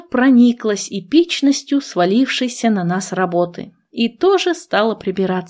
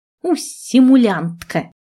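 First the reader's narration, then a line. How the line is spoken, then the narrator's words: Sighing. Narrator (Russian): Я снова вздохнула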